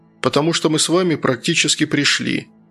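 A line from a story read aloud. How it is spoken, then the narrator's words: Matter-of-fact tone. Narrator (Russian): обыденным тоном сообщил Антон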